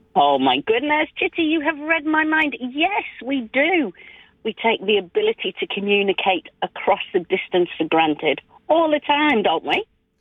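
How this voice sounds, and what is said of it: Slight English accent. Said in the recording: “this one's got a bit of a English accent”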